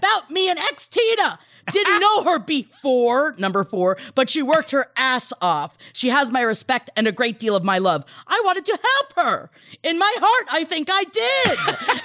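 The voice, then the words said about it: Yelling, reading loudly. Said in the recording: “I'm yelling because it's all in caps”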